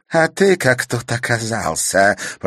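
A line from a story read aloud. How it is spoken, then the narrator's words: Hiss. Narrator (Russian): прошипела Клементина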